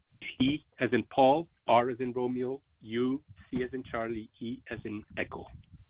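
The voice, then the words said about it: Speaks with a foreign accent. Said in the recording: “between the phone and my accent”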